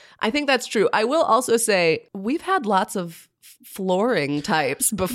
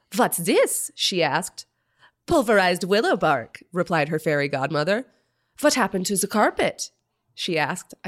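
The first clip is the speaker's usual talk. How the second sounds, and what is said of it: Imitated Greta Thunberg accent. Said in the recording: “I don't know what Greta's accent sounds like, but I assume it's that.”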